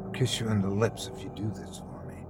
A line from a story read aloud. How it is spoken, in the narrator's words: Chrissy whispered